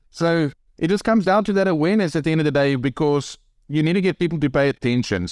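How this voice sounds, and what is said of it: South African accent. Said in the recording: “a South African accent ... the accent definitely gets a, uh, a lot of attention”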